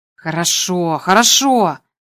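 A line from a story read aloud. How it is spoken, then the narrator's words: Grumbling. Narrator (Russian): проворчал Гарри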